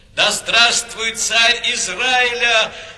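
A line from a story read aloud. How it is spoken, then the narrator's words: Joyful crowd shouting. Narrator (Russian): радостно кричали они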